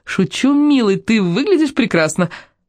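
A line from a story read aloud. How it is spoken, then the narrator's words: Giggling. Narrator (Russian): хихикнет и скажет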